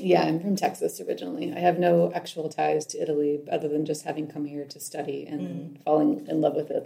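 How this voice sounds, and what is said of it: Slight American accent. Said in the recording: “I can sense a bit of an American accent, maybe.”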